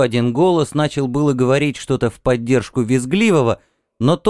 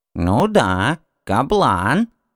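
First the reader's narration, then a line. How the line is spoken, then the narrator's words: Creaky old falsetto. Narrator (Russian): проскрипел старческий фальцет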